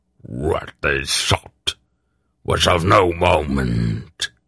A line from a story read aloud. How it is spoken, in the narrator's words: Morja snarled